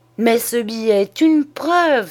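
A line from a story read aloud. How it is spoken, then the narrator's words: Exclaimed. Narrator (French): s'écria Tabaret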